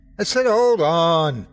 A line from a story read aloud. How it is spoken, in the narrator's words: I yelled back